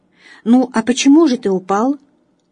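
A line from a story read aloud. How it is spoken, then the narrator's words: Plain. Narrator (Russian): снова спросили его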